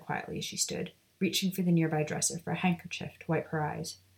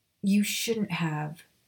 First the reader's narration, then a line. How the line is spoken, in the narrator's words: Narcissa said with a sigh